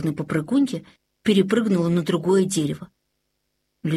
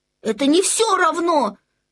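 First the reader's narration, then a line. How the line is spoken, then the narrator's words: Shout. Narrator (Russian): крикнул Людвиг XIV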